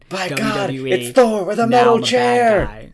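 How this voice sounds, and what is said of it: Wrestling announcer voice. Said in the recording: “good wrestler announcer voice ... I think you nailed it”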